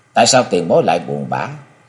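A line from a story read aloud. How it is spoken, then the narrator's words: Surprised question. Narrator (Vietnamese): Lý Mộng ngạc nhiên hỏi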